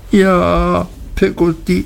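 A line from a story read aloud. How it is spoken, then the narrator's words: Sobbing. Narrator (German): schluchzte ich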